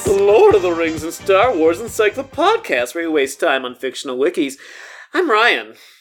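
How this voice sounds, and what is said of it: Silly put-on podcast voice. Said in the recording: “slip into a sort of a silly voice just now? ... I put on, this is my podcast voice right now.”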